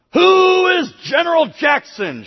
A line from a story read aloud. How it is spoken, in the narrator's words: shouted Cartwright